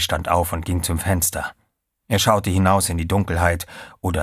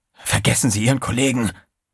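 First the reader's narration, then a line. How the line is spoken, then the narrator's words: Hissed. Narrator (German): zischte Trey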